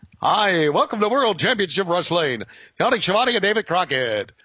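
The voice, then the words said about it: Phony announcer voice. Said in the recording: “my voice was phony. Phony as shit.”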